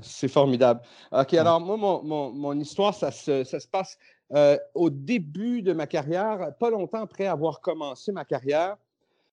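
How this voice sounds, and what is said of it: Light Québécois French accent. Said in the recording (French): “un petit accent québécois léger ... T'as un petit accent, mais c'est rien de spécial”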